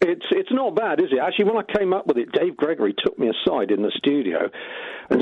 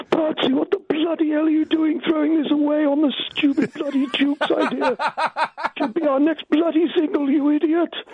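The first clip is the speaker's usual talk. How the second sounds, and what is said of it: Imitates another person's voice. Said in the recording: “my Dave Gregory impression ... that was quite a good impression, but it plays havoc on the larynx”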